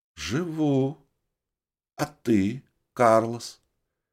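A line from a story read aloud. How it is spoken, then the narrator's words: Very quiet but clear. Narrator (Russian): Ее голос звучал очень тихо, но я отчетливо слышал каждое слово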